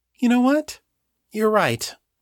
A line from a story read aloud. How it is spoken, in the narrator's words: she said, in a sweet tone of voice that did not match the cool calculation in her eyes